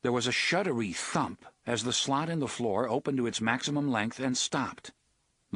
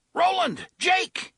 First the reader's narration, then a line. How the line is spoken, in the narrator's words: Eddie shouted